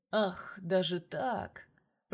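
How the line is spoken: Drawling. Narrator (Russian): Протянул Юрий Алексеевич

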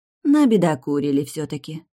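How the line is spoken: Sighing. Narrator (Russian): вздохнула Оливия

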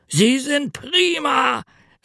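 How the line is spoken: Calling out. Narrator (German): rief er

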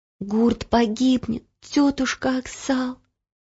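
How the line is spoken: Whisper. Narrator (Russian): прошептала Ело

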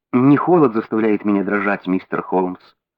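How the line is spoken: Quiet. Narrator (Russian): тихо сказала женщина

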